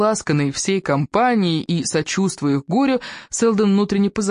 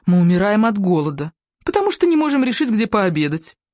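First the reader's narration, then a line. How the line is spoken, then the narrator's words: Exclaimed, then plaintive. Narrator (Russian): воскликнула миссис Фишер ... и добавила жалобно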